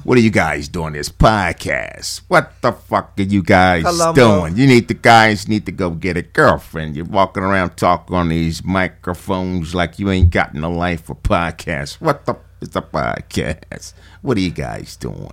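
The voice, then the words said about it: Imitates another person's voice. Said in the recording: “He does so many impersonations.”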